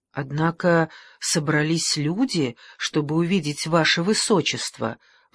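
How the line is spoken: Pleading, host. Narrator (Russian): взмолился хозяин

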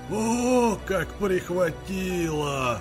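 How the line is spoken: Wheezing from exertion. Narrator (Russian): захрипел он, взбираясь по уклону на дорогу

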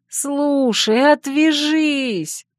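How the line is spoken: Groaning. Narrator (Russian): простонала я

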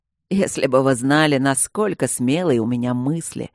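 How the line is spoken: Drunken laughing speech. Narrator (Russian): рассмеялся он пьяно

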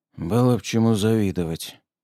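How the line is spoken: Mutter. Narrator (Russian): пробормотал

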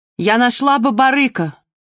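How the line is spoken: Shouting after. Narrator (Russian): крикнула вслед Марго

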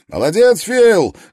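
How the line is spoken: Young man shouting from afar. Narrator (Russian): крикнул высокий, худой молодой человек, в 50 ярдах слева

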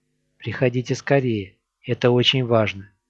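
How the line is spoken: Worried whisper. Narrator (Russian): Сю озабоченно прошептала

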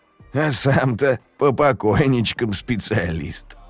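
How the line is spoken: Snorting. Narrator (Russian): Он фыркнул

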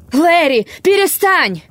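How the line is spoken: Terrible female scream. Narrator (Russian): она закричала так страшно

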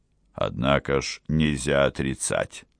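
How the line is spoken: Calm indifferent tone. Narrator (Russian): сказал совершенно спокойным, почти равнодушным тоном

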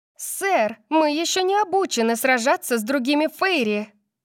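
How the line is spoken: Shouted. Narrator (Russian): крикнула Кайли

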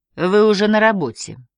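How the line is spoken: Dry statement. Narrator (Russian): сухо констатировал Питт

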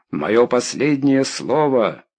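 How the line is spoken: Shout. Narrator (Russian): выкрикнул Стэк

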